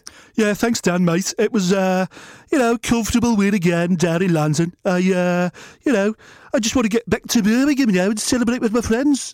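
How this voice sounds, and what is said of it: Brummie accent impression. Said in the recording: “he's Brummie ... impersonate the hardest men on the planet”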